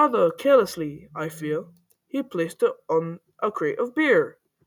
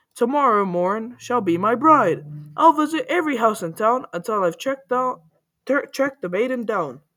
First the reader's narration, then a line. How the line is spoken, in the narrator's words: he cried